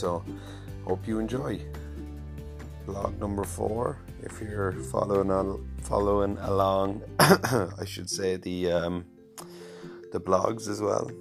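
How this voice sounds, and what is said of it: Deeper voice, sore throat. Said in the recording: “my voice is a bit maybe deeper today, bit of a sore throat”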